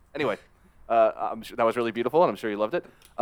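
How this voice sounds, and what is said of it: Usual voice. Nothing is said of it.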